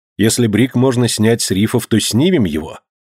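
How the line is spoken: Plain. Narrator (Russian): ответил Гленарван

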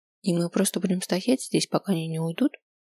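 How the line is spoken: Quiet question. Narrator (Russian): Тихо поинтересовалась я

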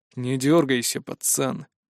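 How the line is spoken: Smirking. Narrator (Russian): хмыкнул мужик

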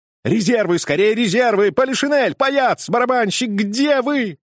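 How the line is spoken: Desperate shout for help. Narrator (Russian): так отчаянно кричал, надеясь на помощь

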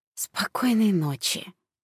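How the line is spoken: Sleepy whisper. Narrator (Russian): еще успела прошептать Светка, прежде чем провалиться в сон

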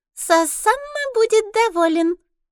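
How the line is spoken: Squeaky voice. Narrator (Russian): произносит серокрылая писклявым голосом

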